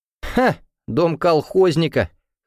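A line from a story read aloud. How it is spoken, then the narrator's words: Dismissive snort. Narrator (Russian): хмыкнув, Игнат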